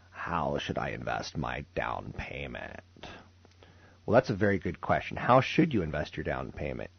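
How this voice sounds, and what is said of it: Low creaky vocal fry. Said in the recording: “I'm going to do this segment with vocal fry.”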